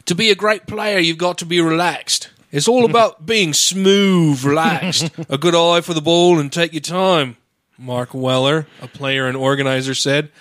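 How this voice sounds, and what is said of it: Put-on English accent. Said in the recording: “Now I'm going to fuck up the English accent because I'm overthinking it.”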